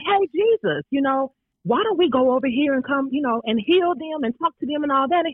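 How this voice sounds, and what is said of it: Put-on twangy voice. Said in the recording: “I'm putting in my Charlize twang”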